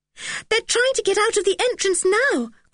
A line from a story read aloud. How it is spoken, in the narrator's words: cried Anne suddenly